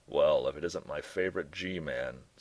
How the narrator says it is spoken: Straw said, his voice a surprisingly resonant basso profundo

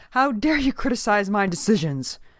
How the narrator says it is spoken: cried the minister

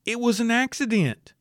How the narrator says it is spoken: The said nephew pleaded

